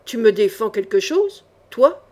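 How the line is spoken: Fearless growl. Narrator (French): gronda Jean sans peur, livide

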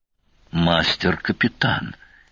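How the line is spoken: Frightened croak. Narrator (Russian): испуганно хрипнул субгенерал

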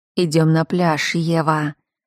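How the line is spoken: Quiet, ominous male voice. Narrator (Russian): сказал он тихо, в его голосе послышался приговор

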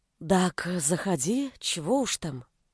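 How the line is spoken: Whisper. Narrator (Russian): шепот

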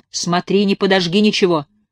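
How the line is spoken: Stern warning. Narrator (Russian): строго предупредил Егор

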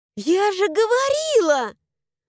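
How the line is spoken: Joyful shout. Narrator (Russian): Радостно заорала я

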